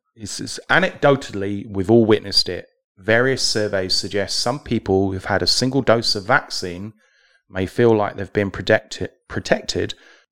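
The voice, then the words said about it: British accent. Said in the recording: “your accent ... a very British sentence”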